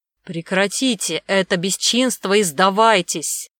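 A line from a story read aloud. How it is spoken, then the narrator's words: Monstrous roar. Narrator (Russian): прорычал огромный зверь-монстр голосом боярина Демьяна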